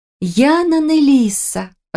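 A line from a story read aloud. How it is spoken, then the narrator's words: Joyful exclamation. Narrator (Russian): радостно воскликнула я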